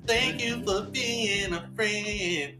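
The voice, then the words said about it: Creepy male singing voice. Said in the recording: “the original version was sung by a dude, and it sounds kind of creepy ... Does he have like a deep voice? ... this guy is like, he's like this.”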